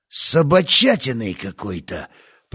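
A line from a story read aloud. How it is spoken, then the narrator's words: Mutter. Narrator (Russian): пробормотал сержант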